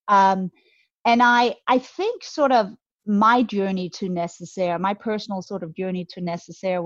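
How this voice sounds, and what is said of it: Slight Danish accent. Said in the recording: “you might detect a little bit of an accent. I'm Scandinavian, I'm Danish”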